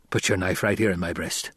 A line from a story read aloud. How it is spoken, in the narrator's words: Gurney muttered